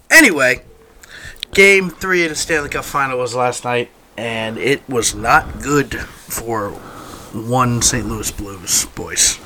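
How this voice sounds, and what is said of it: Groggy, tired-sounding voice. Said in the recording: “my voice sounds a little groggy, sorry, it's Sunday morning and I had a long night”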